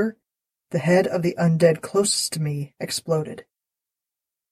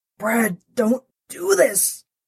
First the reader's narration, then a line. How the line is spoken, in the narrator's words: growled